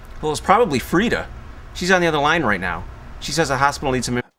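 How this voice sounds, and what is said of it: Michigan accent. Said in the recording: “Everyone has the same accent. ... This is the region for it. ... The Michigan accent”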